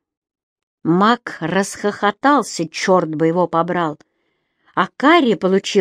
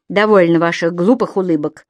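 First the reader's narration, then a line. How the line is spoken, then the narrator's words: Grumbling. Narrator (Russian): проворчал Кэмерон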